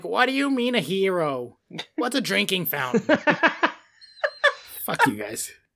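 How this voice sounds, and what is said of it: Angry old lady voice. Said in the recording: “That was just like an old lady. It wasn't even a Rhode Island accent. ... I meant to do a Rhode Island accent and just angry old lady came out.”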